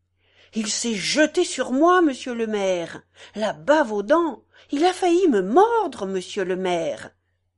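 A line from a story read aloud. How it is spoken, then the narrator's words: Frightened exclaiming. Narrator (French): s'écriait monsieur Bernard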